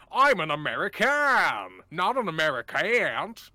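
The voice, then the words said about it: Exaggerated American accent. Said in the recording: “that's sort of like a reasonable American. But then if you think about it too hard, you start to sound like this.”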